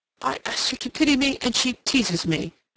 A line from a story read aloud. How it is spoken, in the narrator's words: Rodney exclaimed